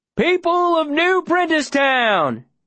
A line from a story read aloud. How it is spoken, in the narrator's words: shouts